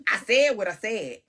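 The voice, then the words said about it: Impression of NeNe Leakes. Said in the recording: “in my NeNe voice.”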